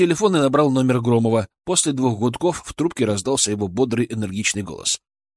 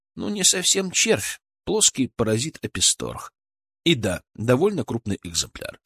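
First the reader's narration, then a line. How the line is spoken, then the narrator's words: Calm confirmation. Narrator (Russian): спокойно подтвердил я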